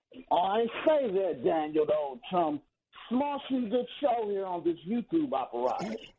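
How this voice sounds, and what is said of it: Put-on English accent. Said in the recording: “was that an English accent?”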